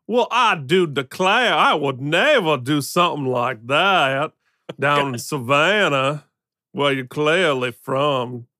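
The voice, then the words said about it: Put-on Southern US accent. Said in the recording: “my non-existent Southern accent ... Are you Blanche Devereaux?”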